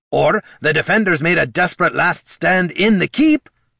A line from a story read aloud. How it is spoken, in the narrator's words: snapped Gorm